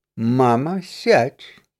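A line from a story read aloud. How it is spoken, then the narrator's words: Young man, quiet. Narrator (Russian): тихо сказал парень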